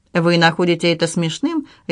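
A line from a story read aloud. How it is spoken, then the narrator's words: Sharp tone. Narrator (Russian): резким тоном сказала Дороти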